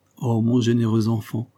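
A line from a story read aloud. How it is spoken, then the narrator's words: Exclaimed with a sigh. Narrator (French): s'écria celle-ci, et elle soupira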